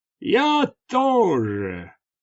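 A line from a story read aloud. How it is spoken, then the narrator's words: Roared. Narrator (Russian): проревел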